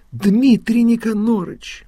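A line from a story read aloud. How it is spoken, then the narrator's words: Exclaimed. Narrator (Russian): воскликнула Елена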